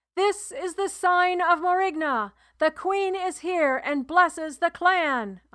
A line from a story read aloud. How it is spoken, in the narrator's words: I shouted